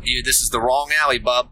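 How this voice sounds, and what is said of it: Put-on Boston accent. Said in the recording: “in a Boston accent”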